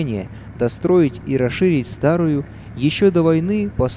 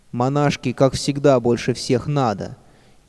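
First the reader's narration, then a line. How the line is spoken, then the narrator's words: Mocking girls' snickering. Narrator (Russian): ехидно подсмеивались девочки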